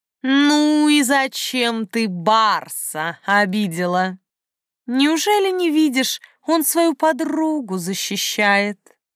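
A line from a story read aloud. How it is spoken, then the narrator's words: Purring, reproachful, curious. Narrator (Russian): Мурлыкающий голос вроде бы и выговаривал, но в то же время сочился любопытством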